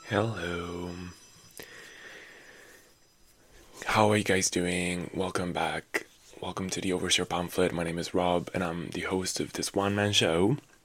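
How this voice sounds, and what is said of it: Low, raspy voice. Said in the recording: “my voice is so low this morning... my voice is low... I'm kind of digging this like raspiness... I have a raspy voice today”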